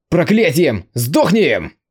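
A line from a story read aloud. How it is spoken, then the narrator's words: Growling. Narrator (Russian): Зарычал Конг Цин Юй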